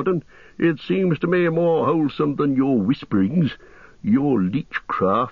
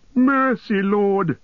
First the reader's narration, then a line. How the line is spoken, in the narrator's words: whined Wormtongue, grovelling on the ground